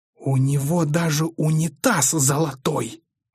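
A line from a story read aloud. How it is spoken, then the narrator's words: Disapproving hiss. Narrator (Russian): осуждающе прошипела Виктория Сергеевна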